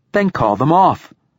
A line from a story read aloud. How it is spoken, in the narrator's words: snaps the girl